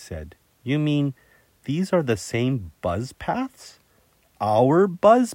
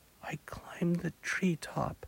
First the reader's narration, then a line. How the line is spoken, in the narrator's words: she whispered